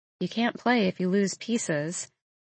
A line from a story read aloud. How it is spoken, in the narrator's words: I murmur